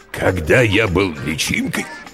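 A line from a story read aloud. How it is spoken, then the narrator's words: Hoarse parent. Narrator (Russian): хрипло начал родитель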